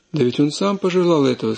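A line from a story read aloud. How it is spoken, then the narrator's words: Plain, old man. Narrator (Russian): сказал старец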